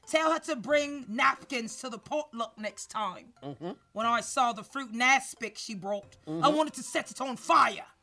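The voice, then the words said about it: Put-on British Cockney accent. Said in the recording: “Can I do a British accent? ... Cockney? ... Yeah, Cockney's good.”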